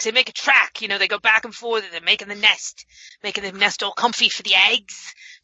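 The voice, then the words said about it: Weird put-on accent. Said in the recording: “I could listen to you say eggs in this weird accent all day long.”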